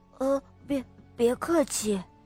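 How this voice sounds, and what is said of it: Quiet, hesitant little voice. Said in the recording (Chinese): “小声”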